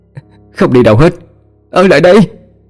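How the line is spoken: Wailing sobbing. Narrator (Vietnamese): Nó gào khóc

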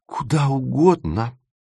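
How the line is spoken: Exclamation. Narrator (Russian): воскликнула Света

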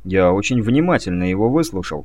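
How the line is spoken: Calm answer. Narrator (Russian): спокойно ответил писец

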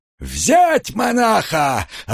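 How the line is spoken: Furious roar. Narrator (Russian): разъяренно взревел сотник

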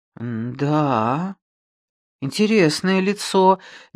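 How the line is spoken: Uncertain mutter. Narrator (Russian): неуверенно пробормотал он

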